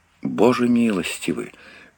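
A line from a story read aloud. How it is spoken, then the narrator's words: Horrified whisper. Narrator (Russian): в ужасе прошептал Мэтлок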